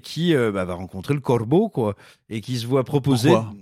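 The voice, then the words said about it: Put-on Berrichon regional French accent. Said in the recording (French): “Pourquoi cet accent? ... à la Berrichonne”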